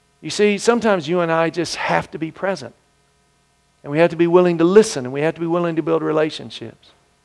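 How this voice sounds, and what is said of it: Southern US twang, Mississippi. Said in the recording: “Good southern place, you can tell. That's where I'm born and raised. You hear a little twang.”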